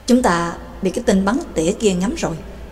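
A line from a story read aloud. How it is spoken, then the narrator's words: Soft murmur. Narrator (Vietnamese): Bà Tàng khẽ nói với Trắc Mộc Cường Ba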